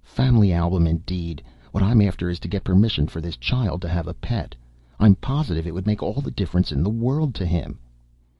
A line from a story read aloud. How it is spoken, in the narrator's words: Aloud, she snapped